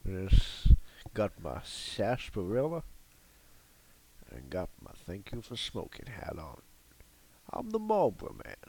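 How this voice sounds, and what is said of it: British speaker's put-on Southern US accent. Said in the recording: “a UKer's take on a old Southern accent”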